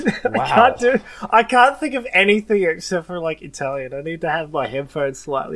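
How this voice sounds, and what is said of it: Usual voice. Nothing is said of it.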